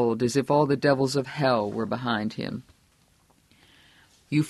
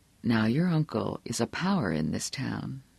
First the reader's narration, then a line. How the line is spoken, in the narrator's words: said softly